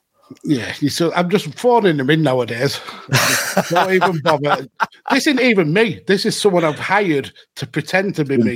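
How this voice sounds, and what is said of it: Rough Blackburn accent. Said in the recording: “that rough Blackburn accent”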